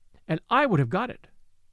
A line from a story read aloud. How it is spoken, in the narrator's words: exclaimed, her color beginning to rise again